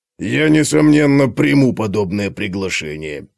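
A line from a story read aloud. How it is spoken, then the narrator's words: Sarcastic mutter. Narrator (Russian): с сарказмом пробурчал Готрек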